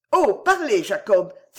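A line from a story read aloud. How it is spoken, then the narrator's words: Exclaimed. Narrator (French): s'écria Miss Margland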